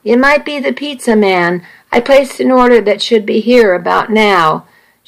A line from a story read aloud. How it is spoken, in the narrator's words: Nikki called out